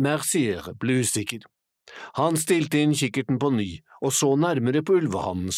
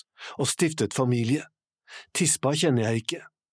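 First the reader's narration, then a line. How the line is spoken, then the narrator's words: Whispering. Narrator (Norwegian): hvisket Lawrence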